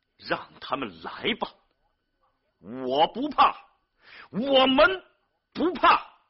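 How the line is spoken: Loud recitation. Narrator (Chinese): 贾冰仍然在大声朗诵着自己最后的诗句

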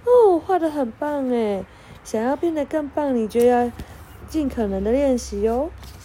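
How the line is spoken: Smiling teacher. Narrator (Chinese): 妹老师一边微笑一边说

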